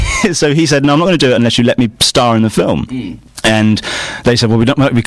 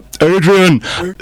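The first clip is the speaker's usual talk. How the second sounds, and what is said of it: Imitates another person's voice. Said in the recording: “Have I ever done a Sly impression?”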